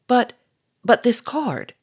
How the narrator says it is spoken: stammered Sonia

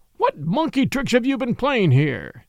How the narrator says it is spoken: he cried

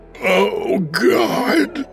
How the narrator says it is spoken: Broderick said in a gasping, hoarse voice, saturated with raw fear

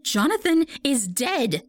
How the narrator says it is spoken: cried

